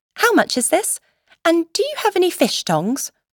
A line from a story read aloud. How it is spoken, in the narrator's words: brightly asked